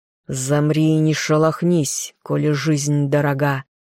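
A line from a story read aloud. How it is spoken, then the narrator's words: Slow menacing, through teeth. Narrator (Russian): Марон процедил медленно и с такой угрозой в голосе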